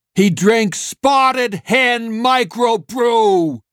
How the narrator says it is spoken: Streeter shouted

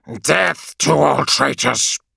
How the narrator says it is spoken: said, part machine rasp, all human hostility

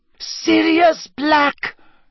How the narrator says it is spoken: she shrieked

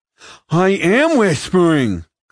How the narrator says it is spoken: Clemo cried

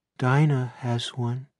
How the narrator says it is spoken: Barbara says in a faraway, dreaming voice

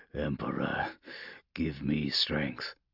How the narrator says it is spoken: Polixis murmured to himself

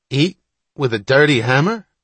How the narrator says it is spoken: Wapner cried

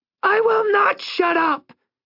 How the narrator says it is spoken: She shrieked, a sudden explosion

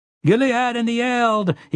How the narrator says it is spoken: he cried

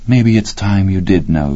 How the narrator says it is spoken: she had said

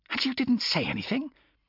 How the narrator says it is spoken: Her voice was a furious hiss

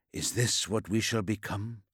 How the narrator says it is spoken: whispered to himself, but the words almost caught in his throat

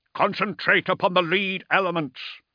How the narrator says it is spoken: Ordermail shouted

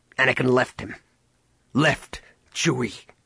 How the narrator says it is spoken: Han spat

